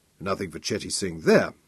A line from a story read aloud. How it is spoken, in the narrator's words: muttered with grim satisfaction